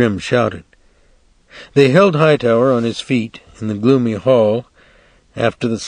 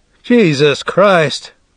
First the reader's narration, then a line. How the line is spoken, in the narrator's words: Grimm cried, his young voice clear and outraged, like that of a young priest